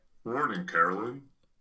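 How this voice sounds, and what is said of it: Imitates another person's voice. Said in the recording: “I can do an okay Nick impression. ... That's good. ... It's actually That's pretty good.”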